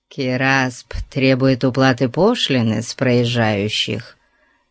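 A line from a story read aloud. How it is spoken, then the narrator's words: Through gritted teeth. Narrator (Russian): сквозь зубы ответил Сасан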